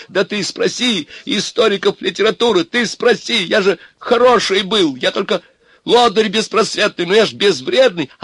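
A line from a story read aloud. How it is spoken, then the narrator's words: Straining shout. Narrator (Russian): Обломов кричал ему, надрываясь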